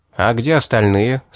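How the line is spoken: Plain. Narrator (Russian): спросил я Эдгара

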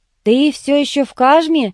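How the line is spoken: Shouted. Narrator (Russian): крикнул

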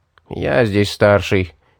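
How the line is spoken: Displeased grumbling. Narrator (Russian): недовольно проворчал один из воинов

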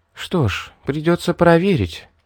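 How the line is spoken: Barely audible. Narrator (Russian): едва слышно сказала Мэри

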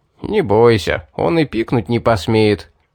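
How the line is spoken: Laughing. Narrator (Russian): засмеялся Эдгар

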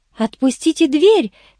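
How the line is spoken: Teacher's frightened squeak. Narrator (Russian): пискнула учительница от страха

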